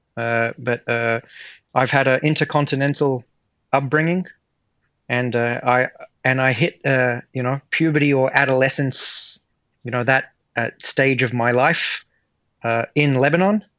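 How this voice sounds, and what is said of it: American accent, slight Australian twang. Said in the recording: “You don't really have an Australian accent... I have a very slight Aussie twang... all the kids spoke with an American accent. So it kind of rubbed off on me”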